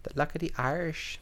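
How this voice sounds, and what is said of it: Bad put-on Irish accent. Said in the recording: “That was a horrible Irish accent.”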